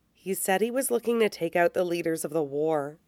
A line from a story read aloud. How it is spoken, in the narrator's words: he says quietly